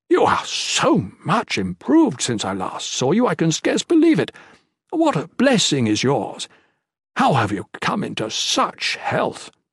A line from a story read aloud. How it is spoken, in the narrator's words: the pure man exclaimed